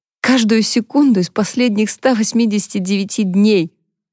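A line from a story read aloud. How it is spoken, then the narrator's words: Sobbing. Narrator (Russian): Харпер, всхлипывая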